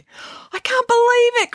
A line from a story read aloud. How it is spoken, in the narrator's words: cried Harvey